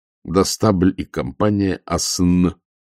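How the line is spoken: Plain. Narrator (Russian): сказал Ваймс

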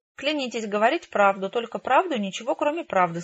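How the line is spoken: Plain. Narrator (Russian): сказал белый кролик

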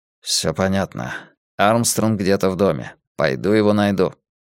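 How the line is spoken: Anxious, gloomy voice. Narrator (Russian): Филипп тревожным, угрюмым голосом произнес

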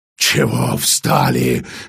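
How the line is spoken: Hoarse yelling. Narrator (Russian): хрипло орал Гримминсхольм

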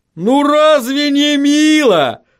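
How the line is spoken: Horribly cheerful exclamation. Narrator (Russian): с кошмарной жизнерадостностью воскликнул Ваймс

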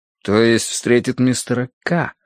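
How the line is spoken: Drawn-out. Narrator (Russian): протянул я

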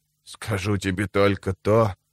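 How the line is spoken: Mumbled, lips barely moving. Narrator (Russian): пробормотал он, едва шевеля губами

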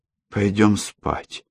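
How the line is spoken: Strained, forced. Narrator (Russian): выдавила она

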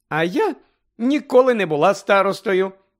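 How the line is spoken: Cheerful. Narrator (Ukrainian): Весело розповідала Тонкс

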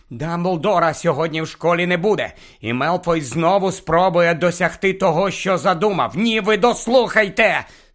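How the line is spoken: Angry hiss. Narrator (Ukrainian): сердито засичав він, бо Рон і Герміона вже роззявили роти, аби перебити

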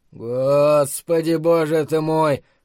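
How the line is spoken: Muffled moan. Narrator (Russian): простонал он из-под одеяла

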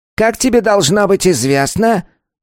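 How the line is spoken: Thin, shrill voice. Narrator (Russian): Голос его был тонким и визгливым

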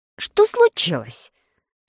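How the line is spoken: Just-woken shout. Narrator (Russian): закричал проснувшийся Листар

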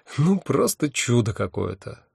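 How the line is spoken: Moved sigh. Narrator (Russian): растроганно вздохнул я

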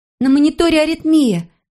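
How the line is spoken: Exclaimed. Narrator (Russian): воскликнула медсестра

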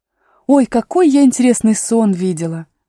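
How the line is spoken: Exclaimed. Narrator (Russian): воскликнула Алиса

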